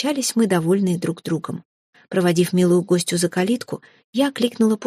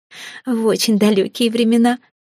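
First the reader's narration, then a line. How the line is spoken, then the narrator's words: Giggling. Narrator (Russian): хихикнула, быстро забыв о неловкости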